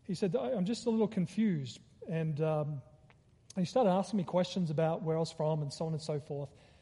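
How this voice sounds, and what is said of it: Australian accent. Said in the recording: “I'm originally from Australia, because he recognized my accent.”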